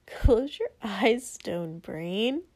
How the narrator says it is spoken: Denki chastised with a laugh

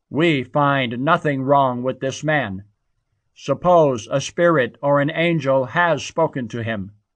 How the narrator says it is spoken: A great uproar occurred, and some scribes belonging to the Pharisee party sharply argued

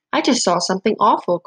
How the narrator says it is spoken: cried the mouse

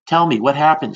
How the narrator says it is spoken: she asked

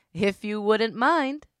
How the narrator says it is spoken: Crowley laughed

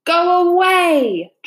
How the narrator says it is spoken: Dragon thundered in a voice that even made Min Lee quake

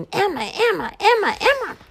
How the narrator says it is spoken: 32 calling birds, screeching

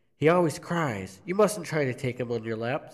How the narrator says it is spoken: says

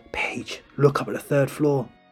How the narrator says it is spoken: B whispers

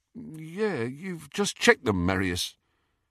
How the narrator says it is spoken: who said in a slightly dazed voice

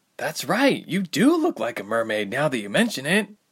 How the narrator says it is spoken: Ilse exclaimed, bubbles protruding from her mouth

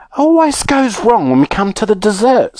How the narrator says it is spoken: sighed Mr

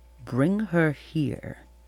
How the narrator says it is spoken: said quietly

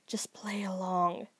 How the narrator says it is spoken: hissed into their ear

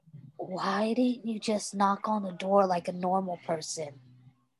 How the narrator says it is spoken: Stiles asked in a whisper

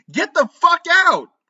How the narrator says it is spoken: I screamed

